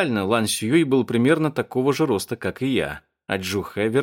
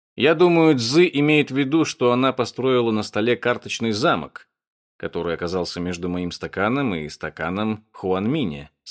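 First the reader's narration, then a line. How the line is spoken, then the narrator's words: Calm. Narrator (Russian): спокойно сказал Джу Хэ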